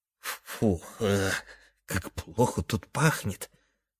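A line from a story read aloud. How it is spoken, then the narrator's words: Whisper in ear. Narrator (Russian): прошептал дрожащий хвост на ухо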